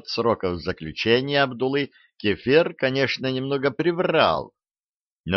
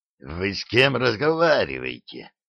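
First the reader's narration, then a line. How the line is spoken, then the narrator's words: Hissing with hatred. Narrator (Russian): прошипел Кефир, и столько в его голосе было ненависти и злобы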